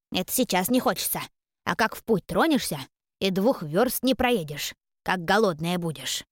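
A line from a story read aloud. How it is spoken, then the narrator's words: Instructive house spirit. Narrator (Russian): наставительно произнес домовой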